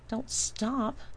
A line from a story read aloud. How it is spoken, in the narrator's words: John whines